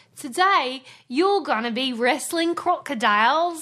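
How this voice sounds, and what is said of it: Bad put-on Australian accent. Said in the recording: “That is the worst Australian accent I've ever heard.”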